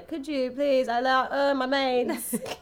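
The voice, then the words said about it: Failed French accent sounding Cockney. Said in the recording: “What are you, British? ... Cockney all of a sudden? ... I can't do French accent.”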